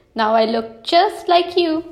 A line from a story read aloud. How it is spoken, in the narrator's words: cried Little Bear